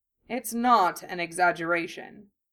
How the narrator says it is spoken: Harry said solemnly

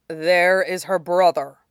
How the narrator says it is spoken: Shidan growled

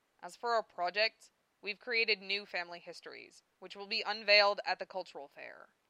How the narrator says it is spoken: I said sternly

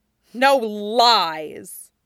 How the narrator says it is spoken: Azula spat

